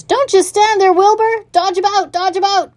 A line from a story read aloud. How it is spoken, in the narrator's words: cried the goose